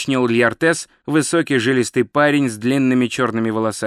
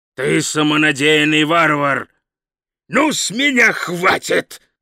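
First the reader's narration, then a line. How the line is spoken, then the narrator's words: Growl. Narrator (Russian): прорычал Хрун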